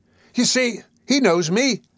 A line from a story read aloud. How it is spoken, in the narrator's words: cried Nancy, appealing to the bystanders